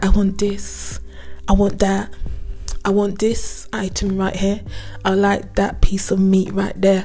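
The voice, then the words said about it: Sultry imitation of another man's voice. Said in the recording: “the way how he's doing it all sultry ... I'm doing the voice of it very goodly”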